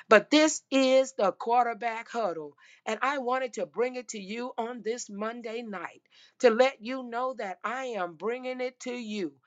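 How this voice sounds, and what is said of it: Hoarse, strained voice. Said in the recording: “I have to save my voice. I am losing my voice again.”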